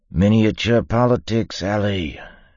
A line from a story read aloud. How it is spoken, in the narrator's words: Yimt said